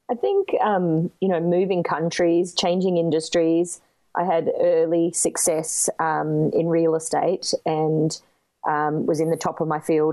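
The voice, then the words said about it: Speaks with a foreign accent. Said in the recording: “I love your accent.”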